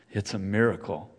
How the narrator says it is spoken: sighs

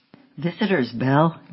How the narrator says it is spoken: John called out

